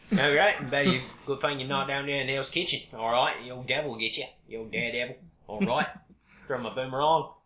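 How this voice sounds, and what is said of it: Put-on Cockney shifting to Australian accent. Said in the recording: “Suddenly I went from Cockney to Australia, mate.”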